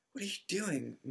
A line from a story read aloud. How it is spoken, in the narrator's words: moaned Ron, gray-faced